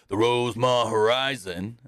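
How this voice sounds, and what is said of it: Bad Stone Cold impression. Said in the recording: “That's a bad Stone Cold impression.”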